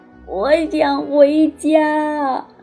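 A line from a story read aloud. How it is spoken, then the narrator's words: Crying. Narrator (Chinese): 麦克终于忍不住哭了起来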